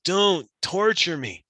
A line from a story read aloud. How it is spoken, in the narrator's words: the spirit cries out